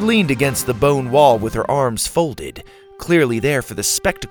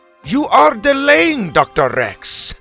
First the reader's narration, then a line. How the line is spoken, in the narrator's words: Helga Bronson shouted from the back